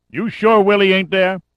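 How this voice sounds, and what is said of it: Heavy New York City accent. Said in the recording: “a voice, heavy with the New York City accent”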